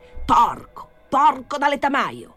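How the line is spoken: Shouting. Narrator (Italian): urlava tia Ignazia

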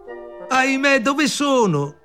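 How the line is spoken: Shout. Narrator (Italian): gridò

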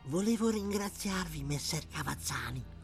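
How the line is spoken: Woman whispering. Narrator (Italian): sussurrò la donna

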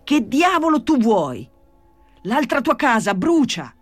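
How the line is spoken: Shouted. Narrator (Italian): gridò Gesù Maria

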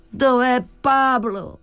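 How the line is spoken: Exclamation. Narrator (Italian): esclamò

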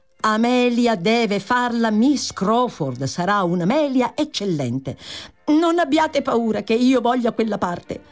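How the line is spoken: Angry exclamation. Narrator (Italian): esclamò Giulia con rabbia

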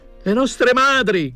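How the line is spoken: Shouted. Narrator (Italian): gridava

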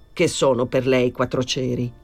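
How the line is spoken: Plain. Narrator (Italian): disse

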